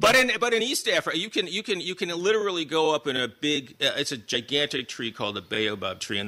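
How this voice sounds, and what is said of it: Usual voice. Nothing is said of it.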